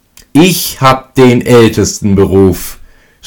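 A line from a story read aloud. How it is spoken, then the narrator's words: Youngest shouting, laughing. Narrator (German): schrie lachend der Jüngste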